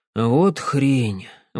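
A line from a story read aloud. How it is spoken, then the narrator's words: Sighing. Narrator (Russian): вздохнул Сэм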